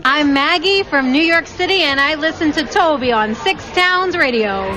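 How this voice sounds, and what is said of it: Strong New York accent. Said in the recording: “you've got the most amazing New York accent there”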